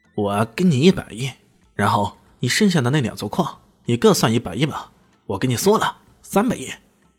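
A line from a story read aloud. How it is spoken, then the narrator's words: Cold sneering laugh. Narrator (Chinese): 他冷冷一笑，说道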